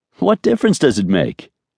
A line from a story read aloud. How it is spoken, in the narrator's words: asked cheerfully